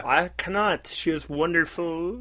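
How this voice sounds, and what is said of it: Put-on accent, Muppet-like voice. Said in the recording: “That's why I work on my accent. ... You sound like Kermit the Frog. Mixed with Fozzie Bear.”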